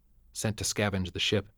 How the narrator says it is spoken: she whispered

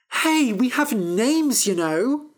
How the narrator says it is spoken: cried Fennel

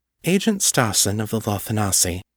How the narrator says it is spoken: said gravely

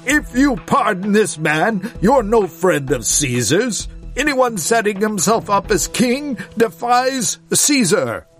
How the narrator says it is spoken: the Jews shouted him down

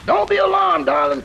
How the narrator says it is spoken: cried the young American engineer

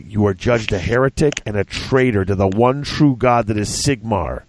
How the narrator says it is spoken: Santanus growled

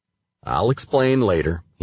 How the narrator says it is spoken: he said

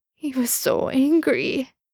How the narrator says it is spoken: Sam sobbed

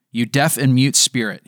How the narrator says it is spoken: he said

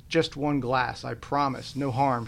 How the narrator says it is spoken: she said

